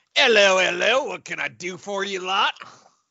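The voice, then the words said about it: Deliberately bad put-on accent. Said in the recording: “Terrible accent, I guess I'm going with.”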